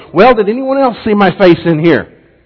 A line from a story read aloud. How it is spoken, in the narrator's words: the robber yelled